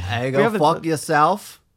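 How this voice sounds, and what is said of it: Poor attempt at Australian accent. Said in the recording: “Can you guys do an Australian accent? ... so he can't do it either. none of us can do it.”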